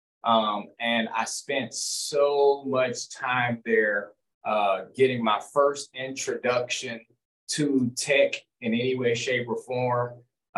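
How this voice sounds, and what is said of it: Southern American accent, Arkansas. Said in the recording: “if you can't hear it yet, you will hear it soon enough. I'm from Arkansas, so the accent at times does come out”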